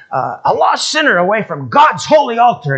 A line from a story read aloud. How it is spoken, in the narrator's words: He's yelling at the top of his voice